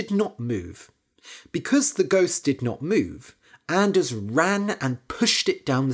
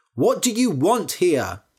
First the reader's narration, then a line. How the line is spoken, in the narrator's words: shouted Anders